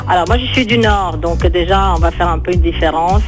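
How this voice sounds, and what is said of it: Speaks French with a foreign accent. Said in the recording (French): “J'adore votre accent”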